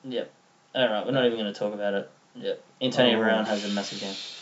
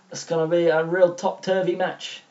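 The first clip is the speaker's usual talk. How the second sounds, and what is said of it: British accent drifting into Ricky Gervais's Derek. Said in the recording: “whose British accent was better ... I reckon it's mine. No, I lost it. I went into Derek, Ricky Gervais.”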